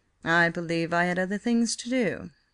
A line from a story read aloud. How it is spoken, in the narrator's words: he said coolly